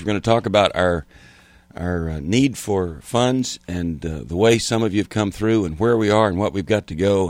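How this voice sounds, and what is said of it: Hoarse, strained voice. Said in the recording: “Got a bit of a sore throat and laryngitis”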